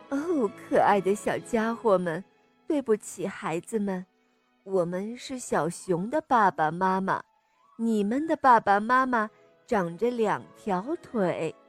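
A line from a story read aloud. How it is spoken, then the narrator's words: Laughing gentle correction. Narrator (Chinese): 熊妈妈笑着纠正鸡宝宝们，她说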